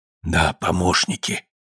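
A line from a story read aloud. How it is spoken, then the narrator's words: Quiet confirmation. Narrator (Russian): негромко подтвердил хозяин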